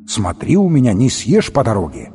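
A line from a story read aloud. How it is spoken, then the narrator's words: Stern mother's order. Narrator (Russian): строго наказала мать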